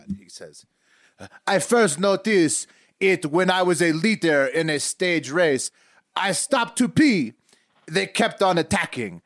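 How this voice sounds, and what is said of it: Exaggerated put-on European accent. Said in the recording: “This is just the most European accent I, have got.”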